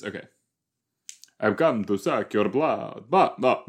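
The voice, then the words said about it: Put-on Transylvanian vampire accent. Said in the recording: “That's not at all the right accent... Transylvania, right?”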